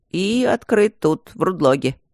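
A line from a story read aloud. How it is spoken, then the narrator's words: Grumbled. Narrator (Russian): проворчал Тандаджи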